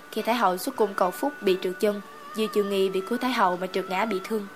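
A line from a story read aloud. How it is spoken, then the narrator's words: Whisper in ear. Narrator (Vietnamese): Phương Hàm thì thầm bên tai ta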